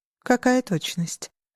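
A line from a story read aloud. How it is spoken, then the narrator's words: Heavy sigh. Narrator (Russian): тяжело вздохнул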